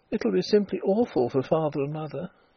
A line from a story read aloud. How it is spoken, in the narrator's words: she murmured